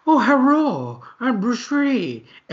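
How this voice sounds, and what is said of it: Mock stereotyped Chinese accent. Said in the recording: “it was like a super racist ... racist Chinese accent”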